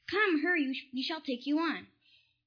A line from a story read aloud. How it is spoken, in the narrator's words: one of the sailors in the back of the boat cried